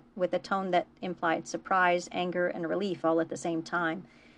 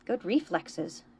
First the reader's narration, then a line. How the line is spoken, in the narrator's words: Jake muttered